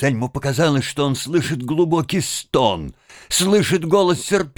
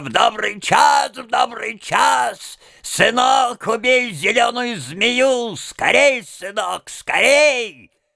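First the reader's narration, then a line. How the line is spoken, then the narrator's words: Wild scream, old woman. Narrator (Russian): старуха дико закричала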